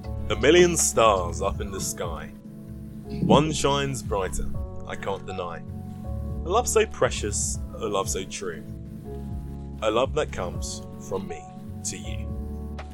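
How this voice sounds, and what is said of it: Dramatic poetry-reading voice. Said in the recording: “dramatic voice”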